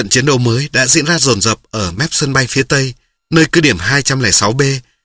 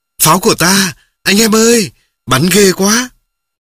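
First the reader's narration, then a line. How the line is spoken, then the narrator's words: Joyful cheer. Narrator (Vietnamese): người reo lên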